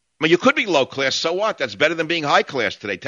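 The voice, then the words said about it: New York accent. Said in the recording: “have a New York accent ... my New York accent”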